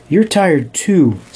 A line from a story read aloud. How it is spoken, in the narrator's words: said Lily